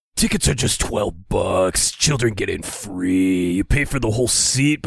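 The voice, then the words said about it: Ominous, unexcited monster truck announcer. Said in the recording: “it's my latest impression... It's the monster truck voice... it was always the same guy who sounded ominous but not excited at all.”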